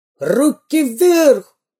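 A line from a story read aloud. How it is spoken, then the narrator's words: Shrill robber's yell. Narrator (Russian): пронзительно заорал первый разбойник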